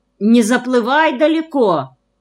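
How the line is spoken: Worried shout. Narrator (Russian): крикнул озабоченно Петр Константинович

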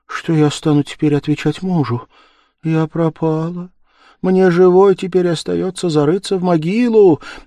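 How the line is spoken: Sobbing. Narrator (Russian): зарыдав

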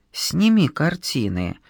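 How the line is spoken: Quiet. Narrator (Russian): тихо сказал я Пашке

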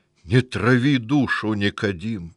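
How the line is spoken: Hoarse pleading. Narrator (Russian): сипло взмолился

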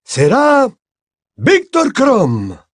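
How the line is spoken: Loud, clear reading. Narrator (Spanish): leyó con voz alta y clara

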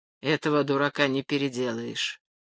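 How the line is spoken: Grumbled. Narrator (Russian): проворчал Поль

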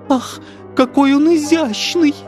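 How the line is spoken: Sweet moan. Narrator (Russian): сладко стонала третья

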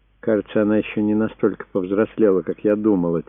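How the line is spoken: Said quietly. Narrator (Russian): тихо сказала Пилар

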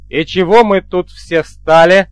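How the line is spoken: Menacing. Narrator (Russian): грозно обернулся я

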